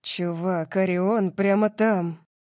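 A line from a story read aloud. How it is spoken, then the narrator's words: Hiss. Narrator (Russian): Прошипел Калиб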